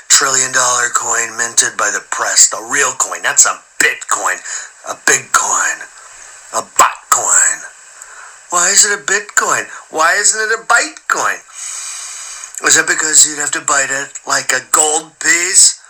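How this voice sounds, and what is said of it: Donald Trump impression. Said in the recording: “as the President of the United States ... when it comes to doing Donald Trump, okay? I'm the best in the business.”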